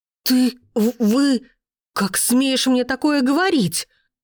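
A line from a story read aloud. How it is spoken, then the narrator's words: Trembling gasp. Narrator (Russian): охнула она дрожащим голосом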